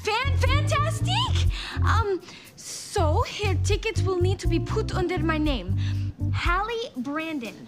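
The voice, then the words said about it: English with fake French accent. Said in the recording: “Speaking English with a French accent. Is still speaking English, huh?”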